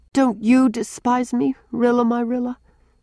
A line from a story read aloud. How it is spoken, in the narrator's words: asked Walter wistfully